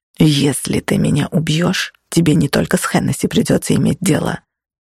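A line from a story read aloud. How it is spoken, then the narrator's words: Hissed. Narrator (Russian): прошипел Чарли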